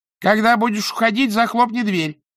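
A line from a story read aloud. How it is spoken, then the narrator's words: Shouted after someone. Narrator (Russian): крикнула госпожа Торт вслед Ангве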